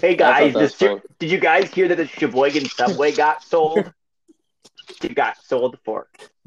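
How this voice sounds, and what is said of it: Impression of the co-hosts' voices. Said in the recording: “That's a good impression. ... I would call it a conglomeration of all three.”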